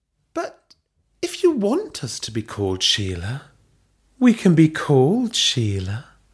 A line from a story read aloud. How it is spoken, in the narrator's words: Belinda purred